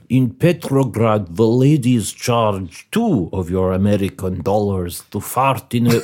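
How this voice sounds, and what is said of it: Put-on Russian accent. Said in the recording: “quite hard with this accent ... Switching from Russian to New York is actually a very difficult thing”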